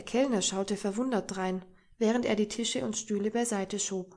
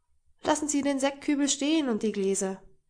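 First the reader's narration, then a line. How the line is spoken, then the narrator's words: Calling out. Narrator (German): rief ihm Henning zu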